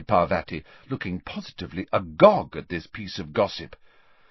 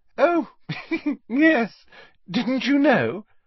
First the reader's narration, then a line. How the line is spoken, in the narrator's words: said Hermione, with a most un-Hermione-ish giggle